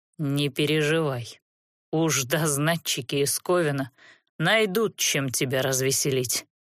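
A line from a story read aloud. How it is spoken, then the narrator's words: Weary promise. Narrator (Russian): устало пообещал Верес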